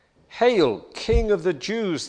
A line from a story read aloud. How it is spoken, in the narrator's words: they said